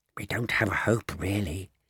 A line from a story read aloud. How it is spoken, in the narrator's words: he whispered, giggling a bit